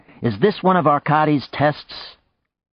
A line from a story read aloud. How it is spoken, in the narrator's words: Janet yelled